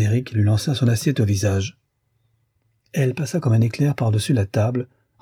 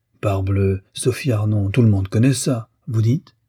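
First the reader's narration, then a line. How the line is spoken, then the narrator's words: Stammering repetition. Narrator (French): Cizi, qui s'est élevé, répéta en balbutiant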